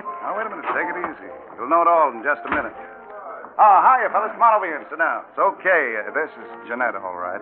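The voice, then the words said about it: American accent. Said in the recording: “You are not French. ... Oh, not with my accent. ... You are an American.”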